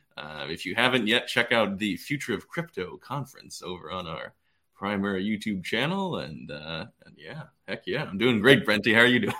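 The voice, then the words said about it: Radio announcer voice, imitating a character. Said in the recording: “We're breaking out our radio voices ... that was a good radio voice, by the way ... I was channeling my uh, Frasier Crane impression”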